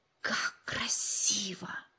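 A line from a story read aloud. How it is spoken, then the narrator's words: Admiring whisper. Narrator (Russian): восхищенно прошептал Джо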